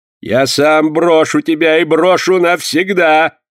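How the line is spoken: Shouted in indignation. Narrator (Russian): закричал в негодовании Порпора

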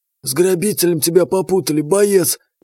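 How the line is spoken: Explanatory hiss. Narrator (Russian): прошипел он, объясняясь

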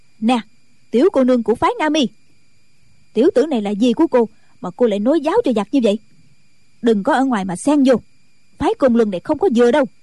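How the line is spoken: Furious shout. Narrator (Vietnamese): Ban Thục Nhàn đã dựng ngược mày tầm, quát lớn

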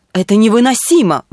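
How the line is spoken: Exclamation. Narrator (Russian): воскликнул полковник Ван Гилберт

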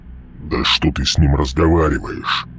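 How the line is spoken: Growl. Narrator (Russian): прорычал Мальп

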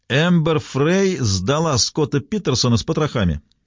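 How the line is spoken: Shout from behind. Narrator (Russian): Кто-то сзади крикнул

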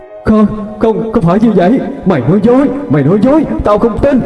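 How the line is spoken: Sudden loud scream. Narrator (Vietnamese): nữ quỷ khi nghe đến đây thì bỗng miệng hét lớn

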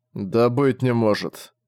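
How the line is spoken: Weary indignation. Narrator (Russian): устало возмутился Зориан

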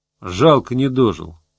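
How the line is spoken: Sighed. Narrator (Russian): вздохнул Гусев

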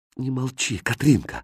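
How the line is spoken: Pleading. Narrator (Russian): взмолился Хрустальт

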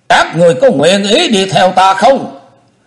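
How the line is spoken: Loud call. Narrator (Vietnamese): Chu Lễ lớn tiếng kêu lên

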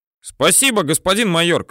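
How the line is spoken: Shouted. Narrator (Russian): кричит Юрка

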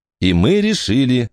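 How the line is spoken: Stern. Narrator (Russian): сказала Эллинор, строго глядя на мужа

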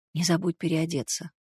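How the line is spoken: Whispered. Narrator (Russian): прошептал Белогуров

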